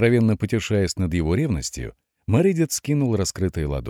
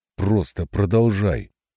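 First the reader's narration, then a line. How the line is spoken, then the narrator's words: Furious hiss. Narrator (Russian): прошипел яростно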